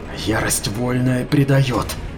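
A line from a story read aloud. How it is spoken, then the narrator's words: Hissing, forcing calm. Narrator (Russian): прошипела Арикин, пытаясь успокоиться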